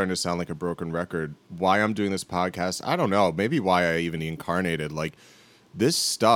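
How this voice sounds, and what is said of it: Usual voice. Nothing is said of it.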